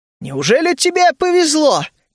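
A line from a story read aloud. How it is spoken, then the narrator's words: Smiling shout. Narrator (Russian): крикнул я, улыбаясь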